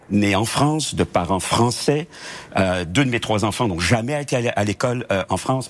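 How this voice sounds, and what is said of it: French-from-France accent. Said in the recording (French): “on s'est moqué un peu de mon accent français”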